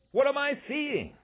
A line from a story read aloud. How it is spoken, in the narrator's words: announcer Graham McNamee screamed as he broadcast